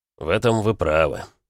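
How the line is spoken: Chuckling. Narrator (Russian): хохотнул Костя

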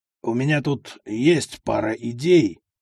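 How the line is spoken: Mumbled, uncharacteristic tone. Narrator (Russian): промямлил Аниськин очень нехарактерным для него тоном

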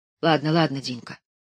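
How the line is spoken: Whisper. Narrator (Russian): шепнула Лиза

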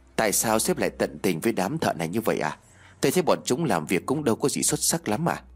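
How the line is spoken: Soft question. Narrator (Vietnamese): Tên quản lý khẽ hỏi

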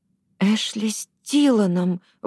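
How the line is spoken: Breathless woman. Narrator (Russian): выдохнула она

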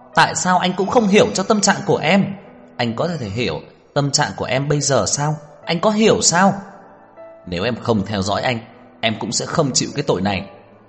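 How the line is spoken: Tearful, agitated shout. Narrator (Vietnamese): Đường Khả Hinh kích động rơi lệ hét to

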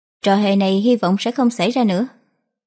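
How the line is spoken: Cold, controlled. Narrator (Vietnamese): hít sâu một hơi, lạnh lùng thốt

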